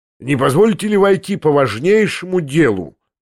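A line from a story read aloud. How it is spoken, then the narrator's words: Loud, dignified. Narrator (Russian): громко и осанисто произнес Стебельков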